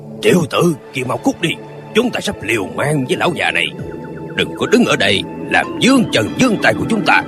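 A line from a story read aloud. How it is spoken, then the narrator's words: Gruff booming shout. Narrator (Vietnamese): Một hán tử giọng ồm ồm ngoài Lương Đình quát lên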